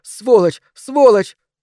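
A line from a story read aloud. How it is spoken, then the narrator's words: Screaming while struggling. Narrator (Russian): Адель билась в темноте, кричала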